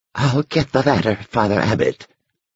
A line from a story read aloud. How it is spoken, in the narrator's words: he whispered